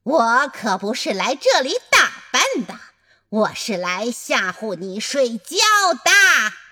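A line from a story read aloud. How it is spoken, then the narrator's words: Angry shout. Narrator (Chinese): 新西亚恼火地喊道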